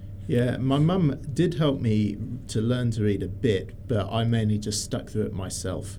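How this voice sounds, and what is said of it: English accent with slight Australian tinge. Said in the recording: “I've got a weird combination of mostly English and slightly Australian accents ... somehow I've managed to keep the accent”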